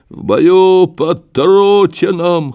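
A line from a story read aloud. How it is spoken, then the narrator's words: Hoarse soldier's shout. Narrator (Russian): хрипло прокричал солдат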